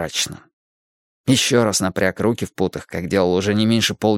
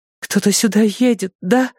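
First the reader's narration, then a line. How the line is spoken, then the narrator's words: Pleading. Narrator (Russian): взмолилась Берри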